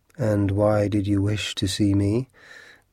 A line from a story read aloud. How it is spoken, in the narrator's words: the man asked wearily